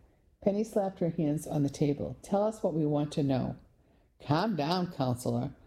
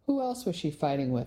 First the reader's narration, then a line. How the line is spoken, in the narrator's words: I asked in a friendly tone